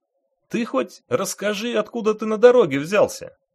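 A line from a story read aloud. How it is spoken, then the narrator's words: Joyful question. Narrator (Russian): радостно спросил водитель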